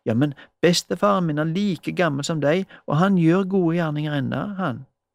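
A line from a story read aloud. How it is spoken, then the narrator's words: Eager. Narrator (Norwegian): sa Johannes ivrig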